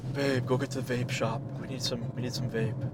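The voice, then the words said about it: Breathless stoner character voice. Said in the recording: “Why am I talking like I'm out of breath? ... He just sounds like an out of breath pothead.”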